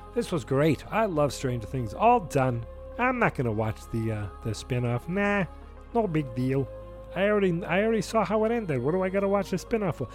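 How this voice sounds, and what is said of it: Character voice of a phony fan. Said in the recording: “That's my impersonation of a guy who uh, is not a real Stranger Things fan. Okay, he's phony.”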